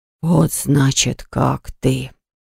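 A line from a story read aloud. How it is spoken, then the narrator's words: Menacing voice. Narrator (Russian): Голос его прозвучал так грозно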